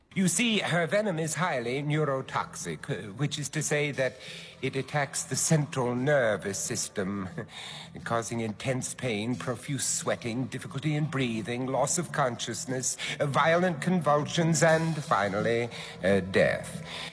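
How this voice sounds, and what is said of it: Precise, creepy accent. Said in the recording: “his precise and creepy accent”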